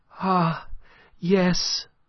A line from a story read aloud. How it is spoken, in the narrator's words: cried Aline